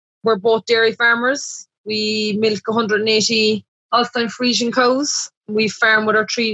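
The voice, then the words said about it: Irish accent. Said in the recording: “the accents coming from ... and ... are just a little bit different than uh, you'll typically hear on the show”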